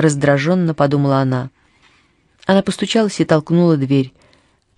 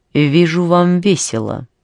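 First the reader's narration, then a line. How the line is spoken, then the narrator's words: Icy tone. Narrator (Russian): Она произнесла ледяным тоном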